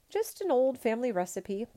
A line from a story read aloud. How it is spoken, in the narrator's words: Pong Lo answered cheerfully